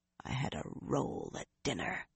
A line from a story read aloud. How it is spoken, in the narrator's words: Nynaeve muttered